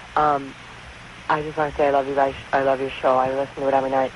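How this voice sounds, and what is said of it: Hoarse, strained voice. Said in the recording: “My voice. I lost my voice.”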